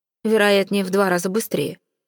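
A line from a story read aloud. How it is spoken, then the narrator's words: Snorting. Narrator (Russian): фыркнул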